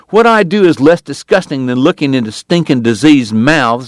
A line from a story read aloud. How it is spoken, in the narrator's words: the woman snarled